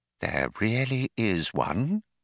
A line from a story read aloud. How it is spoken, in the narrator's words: breathed Fauk